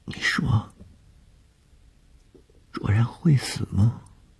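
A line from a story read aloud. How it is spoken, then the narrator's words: Frightened, offhand question. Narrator (Chinese): 谢小婷在天亮之前的惊恐中一句无意的问话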